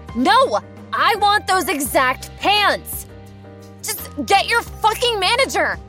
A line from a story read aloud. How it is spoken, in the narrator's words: she screams at me